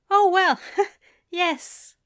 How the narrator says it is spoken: Aziraphale said with a huffed laugh

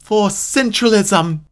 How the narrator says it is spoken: screamed as loud as she could for all to hear

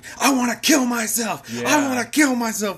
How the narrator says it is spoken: screaming

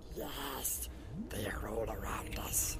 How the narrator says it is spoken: he whispered

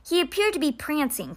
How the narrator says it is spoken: Constance mumbled

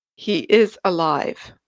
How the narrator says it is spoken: Deander said flatly

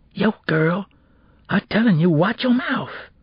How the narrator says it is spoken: he whispered ominously

